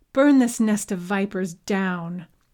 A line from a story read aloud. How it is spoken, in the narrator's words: Yeko shouted to the remaining Yusugi warriors